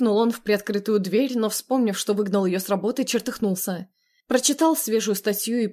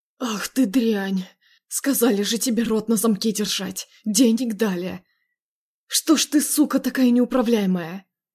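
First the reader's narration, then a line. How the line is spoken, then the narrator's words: Angry hoarse rasp. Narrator (Russian): Зло прохрипел он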